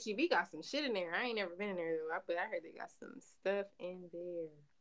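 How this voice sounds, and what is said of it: Californian accent. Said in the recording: “your whole California accent just came out”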